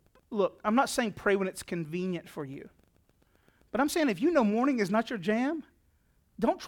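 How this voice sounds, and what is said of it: Usual voice. Nothing is said of it.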